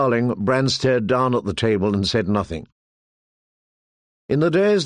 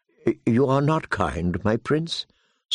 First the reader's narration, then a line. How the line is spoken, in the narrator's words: Sir Roderick chided gently